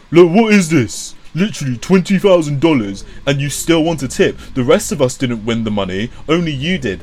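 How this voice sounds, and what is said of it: Butch, masculine-sounding reading voice. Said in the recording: “in a butch voice”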